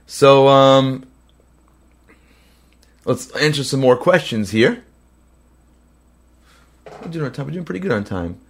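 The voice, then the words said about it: Cracking, sick-sounding voice. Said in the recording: “apologize for my voice cracking. I'm under the weather”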